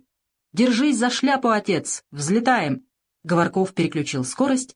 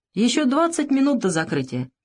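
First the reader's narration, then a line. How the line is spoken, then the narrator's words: Cheerful. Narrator (Russian): Савелий весело сказал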